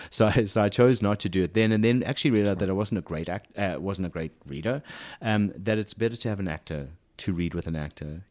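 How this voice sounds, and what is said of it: South African accent. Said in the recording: “I've kept my accent ... a stronger South African accent than I still have”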